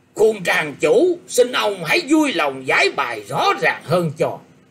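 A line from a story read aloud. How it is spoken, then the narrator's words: Loud shout. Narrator (Vietnamese): Hầu Thiểu Hồng bèn quát to lên rằng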